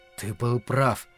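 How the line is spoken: Mutter. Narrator (Russian): пробормотал

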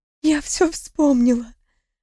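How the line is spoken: Hoarse, strained female voice. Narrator (Russian): Сорванным от крика голосом прохрипела в ответ

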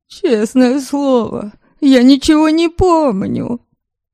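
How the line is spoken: Sobbing. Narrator (Russian): зарыдал Магнус, должно быть, сочтя затянувшуюся паузу за знак недоверия к его словам

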